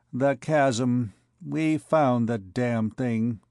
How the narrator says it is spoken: wearily

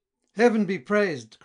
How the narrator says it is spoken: cried Serlo

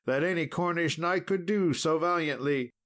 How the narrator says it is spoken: cried out Sir Bors

